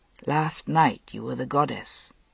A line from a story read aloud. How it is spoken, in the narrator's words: he murmured